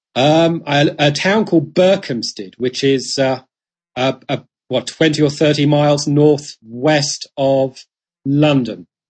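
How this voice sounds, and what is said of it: British accent. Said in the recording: “as people can probably tell from your accent, here based here in the UK”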